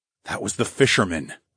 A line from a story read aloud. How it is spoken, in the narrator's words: I muttered